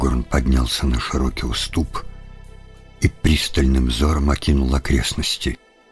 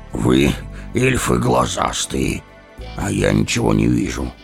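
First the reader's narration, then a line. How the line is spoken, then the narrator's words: Grumbling, breathing heavily. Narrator (Russian): проворчал Гимли, тяжело дыша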